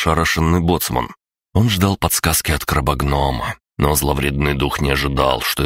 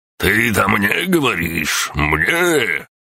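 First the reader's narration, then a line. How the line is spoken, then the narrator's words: Barked retort. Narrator (Russian): рявкнул хозяин казино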